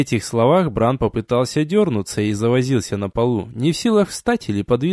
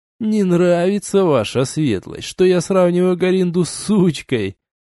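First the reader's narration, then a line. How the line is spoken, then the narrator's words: Laughing. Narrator (Russian): засмеялся человек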